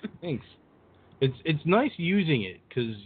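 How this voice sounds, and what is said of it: Usual voice. Nothing is said of it.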